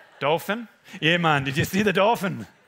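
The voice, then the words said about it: Irish accent. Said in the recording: “I don't know why he's Irish. He just sounded Irish then.”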